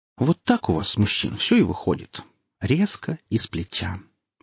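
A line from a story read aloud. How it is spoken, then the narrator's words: Purring. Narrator (Russian): промурлыкал Хип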